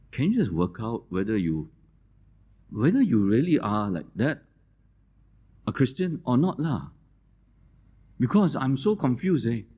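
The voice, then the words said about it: Singaporean Singlish accent. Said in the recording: “That's the kind of Singaporean accent we have, Singlish.”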